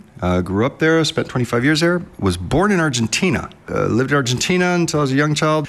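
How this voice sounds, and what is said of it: American accent. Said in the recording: “as you can hear from my accent, American”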